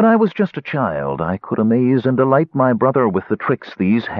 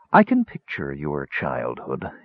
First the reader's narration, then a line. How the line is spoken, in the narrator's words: he murmured